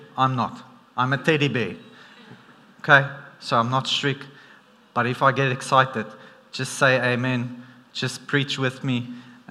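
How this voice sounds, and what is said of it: South African accent. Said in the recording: “my South African accent doesn't help, because sometimes we tend to sound very strict”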